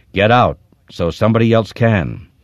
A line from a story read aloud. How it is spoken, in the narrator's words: Jerem said in a low, cold, cutting voice